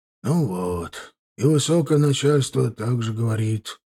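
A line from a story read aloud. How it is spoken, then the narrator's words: Sighing man. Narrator (Russian): вздохнул дядька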